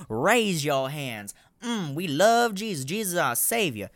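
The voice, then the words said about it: Poor put-on Southern US accent. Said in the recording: “My Southern accent is fucking terrible”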